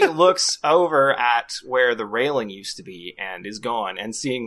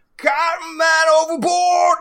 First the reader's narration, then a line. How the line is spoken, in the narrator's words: he screams